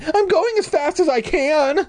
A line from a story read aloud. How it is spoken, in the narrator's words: I screamed